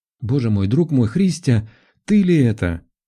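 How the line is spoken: Mother exclaiming. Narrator (Russian): воскликнула маман

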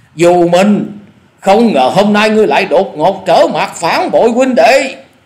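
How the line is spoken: Loud furious scolding. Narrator (Vietnamese): giả điểu thần ma không dằn được lửa giận, nạt to tiếng nói

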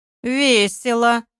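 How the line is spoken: Thoughtful, through gritted teeth. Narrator (Russian): задумавшись, процедил Олег

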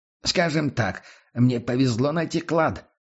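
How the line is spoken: Laughing. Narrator (Russian): засмеялся Дивар

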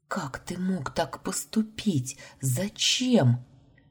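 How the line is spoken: Bewildered whisper. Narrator (Russian): Непонимающе прошептала

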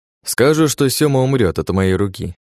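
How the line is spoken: Sighing. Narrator (Russian): вздохнув, произнёс

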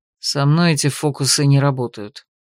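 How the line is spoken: Grumbling mage. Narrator (Russian): ожидаемо буркнул маг

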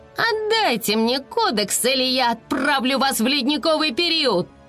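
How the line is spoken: Roar. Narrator (Russian): взревела Айси

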